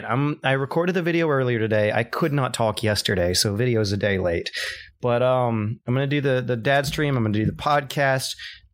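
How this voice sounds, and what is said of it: Hoarse voice. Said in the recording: “my voice just started to go. ... I lost my voice. ... I'm still kind of hoarse”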